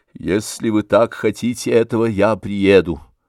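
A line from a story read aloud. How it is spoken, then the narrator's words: Sighing. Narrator (Russian): вздохнув, сказал Алексей Александрович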